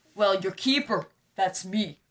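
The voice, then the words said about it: Imitates a film character's voice. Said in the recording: “That was my Oliver Wood impression.”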